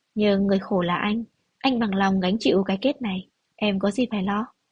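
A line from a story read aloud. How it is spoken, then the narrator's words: Soft laugh. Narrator (Vietnamese): Phan Thần cười khẽ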